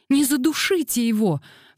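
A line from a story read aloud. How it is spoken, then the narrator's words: Alarmed cry. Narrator (Russian): вскрикнула Дейзи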